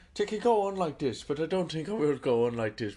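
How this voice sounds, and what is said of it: Put-on Irish accent. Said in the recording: “talking in an Irish accent”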